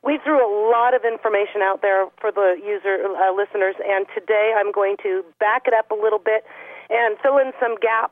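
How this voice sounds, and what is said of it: Voice sounds sick. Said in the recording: “please excuse my voice. I'm a little under the weather.”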